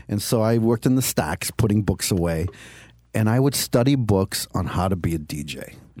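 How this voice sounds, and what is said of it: Strong Boston accent with lisp. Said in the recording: “I have a terrible Boston accent. I have a lisp.”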